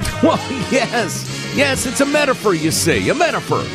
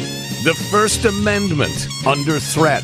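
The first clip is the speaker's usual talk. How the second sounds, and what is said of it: Grave, serious announcer tone. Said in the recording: “I used my serious voice, not my mock serious voice ... This was your actual serious voice, not your mock serious voice.”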